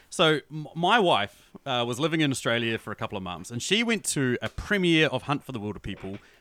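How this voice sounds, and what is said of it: New Zealand accent. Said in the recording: “I'm from New Zealand, as you guys can tell by my accent”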